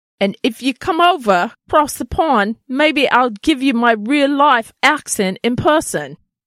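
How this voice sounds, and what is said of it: Poor imitation British accent. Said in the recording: “her awful British accent. Awful. ... Not no? even close. Not even close.”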